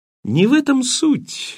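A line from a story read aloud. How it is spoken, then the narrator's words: Cheerful explanation. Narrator (Russian): весело пояснил Лоу-младший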